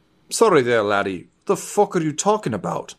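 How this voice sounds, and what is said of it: Strange put-on character accent. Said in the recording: “I don't know what the shit that accent was, but that's as close as we're getting.”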